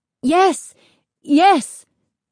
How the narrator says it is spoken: they cried

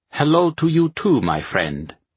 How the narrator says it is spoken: Arnaldo greeted, his voice accented with the notes of Italy

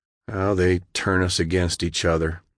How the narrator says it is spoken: he said sadly

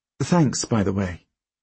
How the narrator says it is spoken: she says

